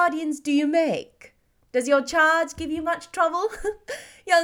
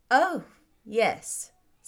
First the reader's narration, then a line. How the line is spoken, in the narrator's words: said Elizabeth dryly